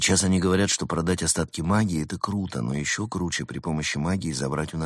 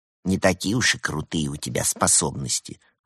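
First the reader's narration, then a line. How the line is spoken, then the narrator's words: Snort. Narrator (Russian): фыркнул Евгений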